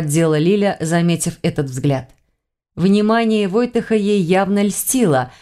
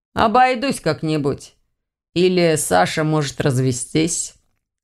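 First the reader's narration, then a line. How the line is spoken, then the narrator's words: Gloomy suggestion. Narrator (Russian): мрачно предложил Ваня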